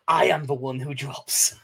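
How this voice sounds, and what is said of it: Walter White impression. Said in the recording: “I got that in a Walter White voice.”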